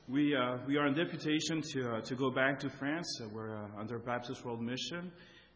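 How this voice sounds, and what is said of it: Slight French accent. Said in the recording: “we speak French ... French is our first language ... you might notice when I speak a little accent”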